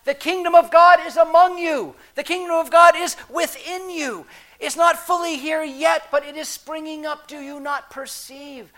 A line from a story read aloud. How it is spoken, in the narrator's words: Jesus was talking about when he walked around Galilee shouting